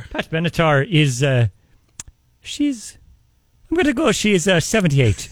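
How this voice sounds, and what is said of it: Put-on Irish accent. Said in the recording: “Irish ... you can't tell from this accent ... go back to Ireland”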